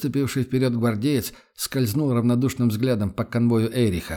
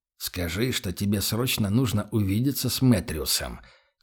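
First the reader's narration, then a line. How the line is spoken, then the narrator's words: Quiet. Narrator (Russian): тихо произнес Эрих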